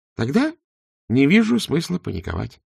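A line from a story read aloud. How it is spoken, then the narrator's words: Calm. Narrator (Russian): спокойно сказал Два Цветок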